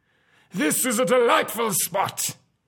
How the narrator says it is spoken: he cried

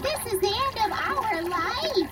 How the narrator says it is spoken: People screaming

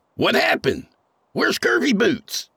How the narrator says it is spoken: Craig yelled

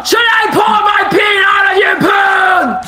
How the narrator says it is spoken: Ash yelled

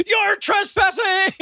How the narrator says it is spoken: he yells

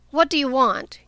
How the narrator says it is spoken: he asked sharply

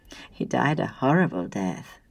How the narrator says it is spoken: said smoothly

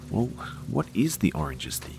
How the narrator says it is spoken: demanded in a whisper

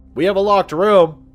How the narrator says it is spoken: he said to someone else loudly

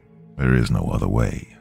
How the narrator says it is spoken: Donovan said, his voice steady

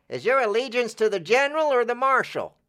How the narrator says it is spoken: One cried

